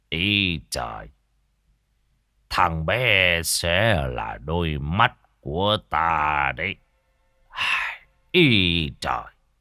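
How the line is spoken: Smiling. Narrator (Vietnamese): thầy tứ mỉm cười mà nói

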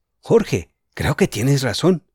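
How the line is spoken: Exclaimed. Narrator (Spanish): exclamó Julián

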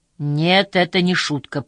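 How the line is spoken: Through gritted teeth. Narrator (Russian): процедил Такаки

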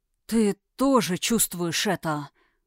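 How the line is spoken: Hoarse, strained voice. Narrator (Russian): раздался хриплый, сдавленный голос Тхерайма

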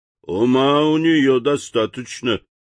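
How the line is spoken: Grumbling sailor. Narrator (Russian): проворчал моряк

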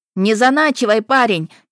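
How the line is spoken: Woman shouting from stands. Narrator (Russian): крикнула какая-то дама с трибун

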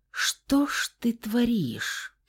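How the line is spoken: Hoarse whisper. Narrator (Russian): Фауст хриплым голосом прошептал

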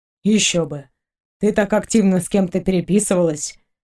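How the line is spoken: Snorting. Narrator (Russian): хмыкнул Максим

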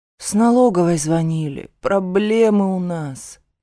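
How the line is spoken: Gloomy. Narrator (Russian): мрачно отвечает он

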